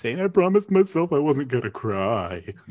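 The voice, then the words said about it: Imitates a cartoon cat character's voice. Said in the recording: “that's a good impression”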